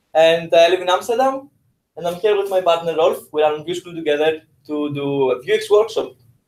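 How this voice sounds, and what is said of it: Greek accent. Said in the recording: “I'm originally from Greece, as you may notice from my cultural accent”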